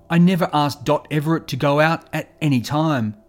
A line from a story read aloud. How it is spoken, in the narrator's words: Len had hotly denied it, saying